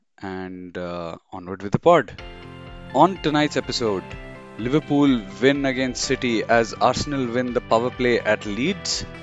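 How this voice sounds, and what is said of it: Sick, rough-sounding voice. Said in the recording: “as you can hear from my voice, I'm a bit under the weather ... the horrible sounding version of me”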